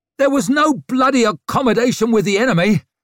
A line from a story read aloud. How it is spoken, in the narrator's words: shouted Bell